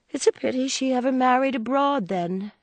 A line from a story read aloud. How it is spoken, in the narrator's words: said May, in the placid tone